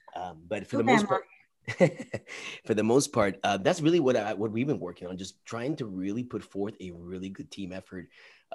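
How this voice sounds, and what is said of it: Strained, fading voice. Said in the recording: “I'm losing my voice a little bit, so if I don't sound like me”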